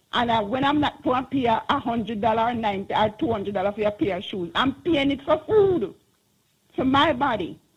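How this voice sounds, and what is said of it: Passionate, emphatic speech. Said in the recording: “I can hear the passion in your voice.”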